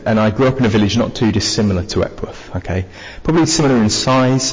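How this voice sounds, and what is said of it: Mixed southern English accent. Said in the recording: “I'm from down south... I'm from Cambridge... I've got bits of Essex, bits of North London, bits of Rotherham and bits of Lincolnshire by now. My accent is, to be honest with you, it's a little bit of a mess.”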